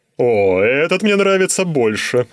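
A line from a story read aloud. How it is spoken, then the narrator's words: Forced laugh. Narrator (Russian): Червякул натянуто рассмеялся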